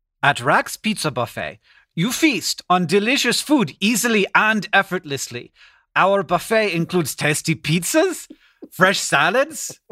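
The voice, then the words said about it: Put-on accent. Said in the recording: “there's no THs. I can't do it until I get a TH ... your accent ... They're both gold ... It's not good enough”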